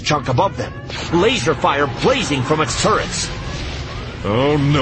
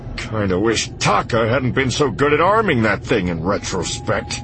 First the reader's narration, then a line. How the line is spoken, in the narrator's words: Han grumbled